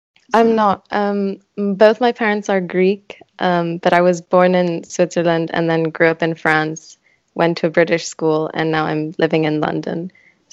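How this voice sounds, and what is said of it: Mixed European non-UK accent. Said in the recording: “I hear in your accent that maybe you're not from the UK. ... the accent is a bit of a mix of all those areas.”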